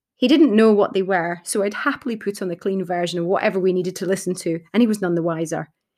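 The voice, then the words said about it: Scottish accent. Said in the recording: “my Scottish Tourette swearing ... my Scottish sweary rants and accent”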